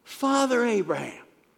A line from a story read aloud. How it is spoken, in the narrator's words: far off, called out